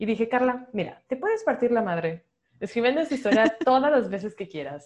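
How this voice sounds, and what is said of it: Usual voice. Nothing is said of it.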